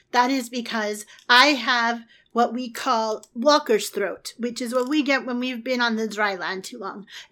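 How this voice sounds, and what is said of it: Slightly hoarse voice. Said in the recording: “I think you can hear I'm a little bit hoarse.”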